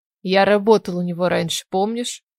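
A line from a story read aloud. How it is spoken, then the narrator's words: Sighing explanation. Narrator (Russian): Пояснил Алан, вздохнув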